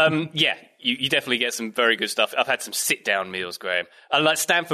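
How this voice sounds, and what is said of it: Usual voice. Nothing is said of it.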